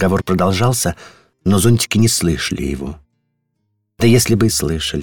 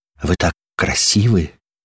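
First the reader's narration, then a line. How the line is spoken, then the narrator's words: Hoarse umbrella voice. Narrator (Russian): хрипло произнес черный зонтик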